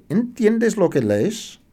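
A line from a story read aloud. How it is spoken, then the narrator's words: Exclaiming. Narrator (Spanish): exclama Felipe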